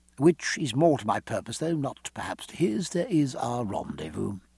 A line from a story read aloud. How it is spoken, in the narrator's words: lowering his voice